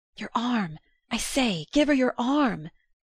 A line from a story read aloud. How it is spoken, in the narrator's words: young Newland nervously hissed